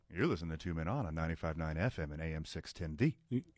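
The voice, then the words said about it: Exaggerated radio announcer voice. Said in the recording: “Are you doing Delilah? ... I'm doing me with like 10% more me.”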